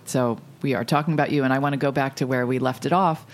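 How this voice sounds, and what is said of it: Polished, smooth radio-style voice. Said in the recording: “you have such a nice radio voice”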